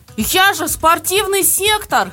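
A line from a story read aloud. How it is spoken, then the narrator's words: Screaming. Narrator (Russian): завопил он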